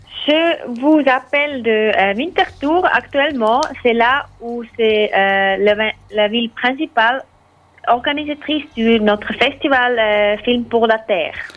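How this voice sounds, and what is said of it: Charming noticeable accent. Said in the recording (French): “Vous avez un accent charmant”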